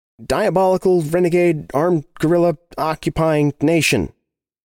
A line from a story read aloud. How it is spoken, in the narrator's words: shouted